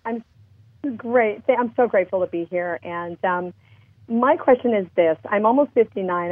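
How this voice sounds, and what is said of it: Hoarse, recovering voice. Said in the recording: “I'm getting over laryngitis right now.”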